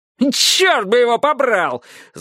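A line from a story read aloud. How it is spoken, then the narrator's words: Yelling. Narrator (Russian): завопил Трурль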